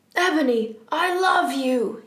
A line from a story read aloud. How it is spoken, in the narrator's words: he shouted sadly